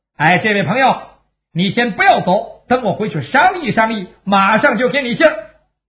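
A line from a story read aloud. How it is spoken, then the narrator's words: Flustered calling out. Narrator (Chinese): 马成这阵真是进也不是退也不是，只好冲着这个小矬子就喊上了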